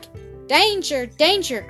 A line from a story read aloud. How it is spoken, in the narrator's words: cried a lot of other beavers